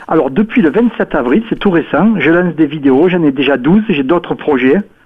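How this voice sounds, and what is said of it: Provençal French accent. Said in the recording (French): “j'ai un peu l'accent de Provence”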